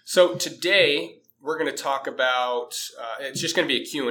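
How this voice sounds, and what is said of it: Deep, slightly congested voice. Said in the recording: “I got a little cold going ... my voice sounds a little unnatural or maybe not the way it normally sounds ... I think you got the radio voice going on ... Probably that deep radio voice”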